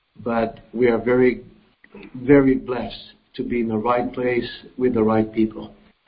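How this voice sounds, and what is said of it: Voice sounds sick. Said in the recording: “my voice is a little bit, we have been under the weather a little bit”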